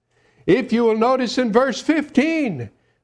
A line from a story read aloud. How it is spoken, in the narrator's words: they cried out